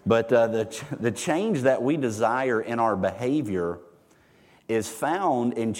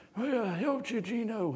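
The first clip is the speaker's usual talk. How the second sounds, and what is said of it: Marlon Brando Godfather impression. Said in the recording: “pretty good Marlon Brando impression”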